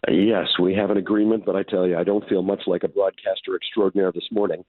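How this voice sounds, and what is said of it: Hoarse, raspy voice. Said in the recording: “I can do a great impression of Brian Mulroney, if you like, because I have woken up with laryngitis ... the pipes”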